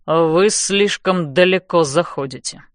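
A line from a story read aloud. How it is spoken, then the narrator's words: Warning. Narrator (Russian): предупреждает он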